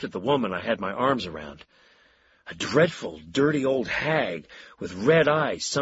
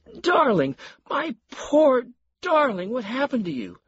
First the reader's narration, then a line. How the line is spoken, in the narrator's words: Marion wailed